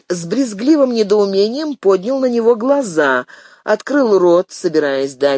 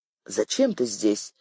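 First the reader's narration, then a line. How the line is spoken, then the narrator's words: Whisper. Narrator (Russian): шепнул ей Глеб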